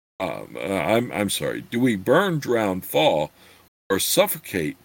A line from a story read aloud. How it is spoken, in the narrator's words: Chert asked angrily